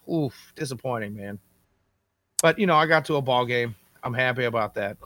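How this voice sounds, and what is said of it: Hoarse voice. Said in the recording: “you can hear I'm still a little hoarse. I might have done a little bit of screaming over the weekend.”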